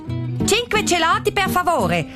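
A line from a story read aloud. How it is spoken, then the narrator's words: Loud voice. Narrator (German): sagt sie mit lauter Stimme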